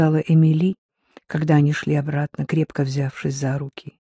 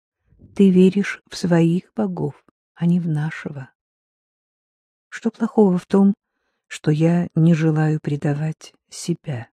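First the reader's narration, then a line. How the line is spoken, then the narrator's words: Calm. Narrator (Russian): спокойно произнес Атеа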